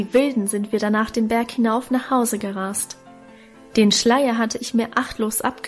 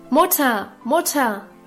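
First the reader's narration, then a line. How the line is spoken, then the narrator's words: Calling from afar. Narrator (German): rief Guste schon von Weitem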